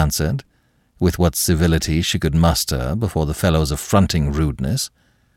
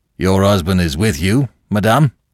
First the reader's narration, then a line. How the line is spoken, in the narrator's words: he asked curtly